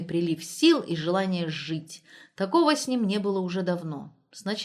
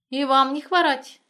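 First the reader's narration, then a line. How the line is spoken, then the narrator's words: Cheerful woman. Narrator (Russian): весело ответила бабенка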